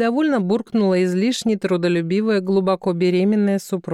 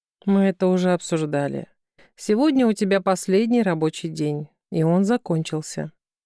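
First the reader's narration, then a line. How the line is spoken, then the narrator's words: Gentle reminder. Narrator (Russian): мягко напомнил Константин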